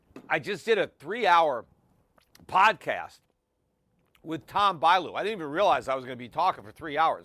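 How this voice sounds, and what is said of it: Hoarse, strained, tired voice. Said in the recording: “I'm losing my voice a bit ... I guess I'm a little tired. I'm losing my voice.”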